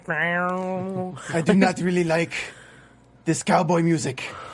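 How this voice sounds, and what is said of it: Put-on Japanese accent. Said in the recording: “Your Japanese ... impression. ... it's terrible.”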